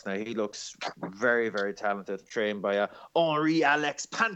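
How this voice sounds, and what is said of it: Impression of Jack Ricou's accent. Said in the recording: “in my best Jack Ricou accent.”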